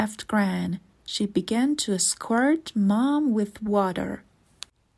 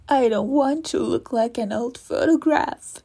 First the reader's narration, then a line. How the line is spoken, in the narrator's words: moaned